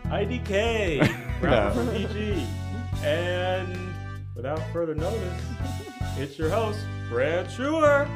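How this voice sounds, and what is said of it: Sexy announcer-style voice. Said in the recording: “I had a real sexy voice.”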